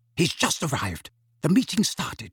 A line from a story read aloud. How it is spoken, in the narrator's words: whispered urgently